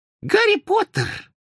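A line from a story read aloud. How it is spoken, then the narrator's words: Excited squeak. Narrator (Russian): пропищал взволнованный голос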